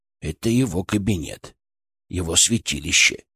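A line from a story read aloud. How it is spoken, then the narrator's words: Quiet speech. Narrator (Russian): тихо сказал Фырк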